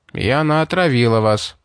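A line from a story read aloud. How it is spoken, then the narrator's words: Dry remark. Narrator (Russian): сухо заметил штурман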